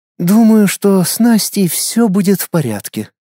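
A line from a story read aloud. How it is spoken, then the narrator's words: Princess's heavy sigh. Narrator (Russian): тяжело вздохнула принцесса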